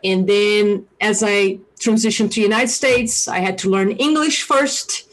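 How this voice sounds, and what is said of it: Brazilian accent in English. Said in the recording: “you guys hear an accent from me ... I'm originally from Brazil ... the accent is still here and always will be here”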